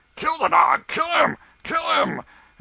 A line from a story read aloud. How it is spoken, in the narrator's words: a score of voices shouted